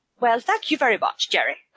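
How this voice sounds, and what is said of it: Impression of Margot. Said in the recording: “do an impression of Margot”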